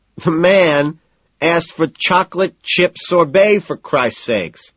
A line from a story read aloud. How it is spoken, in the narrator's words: Timothy wails, disbelieving